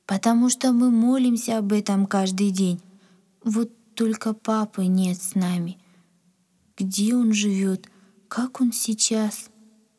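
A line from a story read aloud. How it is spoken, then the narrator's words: Sad. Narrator (Russian): грустно сказала Надя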